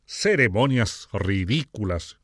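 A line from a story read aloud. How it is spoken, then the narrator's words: Growled. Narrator (Spanish): gruñó K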